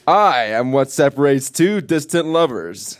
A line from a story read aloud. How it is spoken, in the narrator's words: yelled the ocean